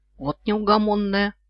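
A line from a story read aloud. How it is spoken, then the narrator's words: Snort. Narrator (Russian): фыркнул он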